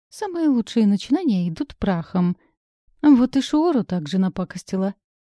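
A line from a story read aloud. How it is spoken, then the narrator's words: Snide remark. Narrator (Russian): ехидно добавил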